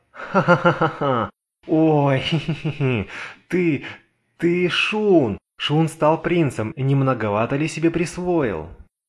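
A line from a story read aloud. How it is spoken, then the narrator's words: Laughing girl. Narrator (Russian): Девушка засмеялась вновь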